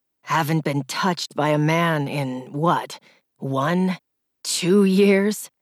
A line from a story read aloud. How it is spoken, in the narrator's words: He chuckled menacingly